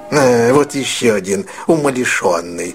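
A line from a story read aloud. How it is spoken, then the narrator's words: Mutter. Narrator (Russian): пробормотал Скрудж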